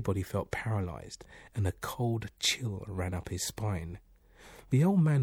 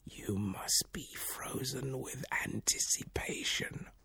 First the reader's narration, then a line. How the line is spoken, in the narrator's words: the old man warrior's eyelids grew heavy, heard him whisper